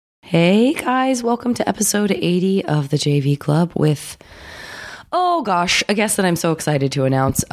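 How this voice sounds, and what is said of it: Congested voice from a cold. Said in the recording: “I do have a cold, a little bit of a summer cold”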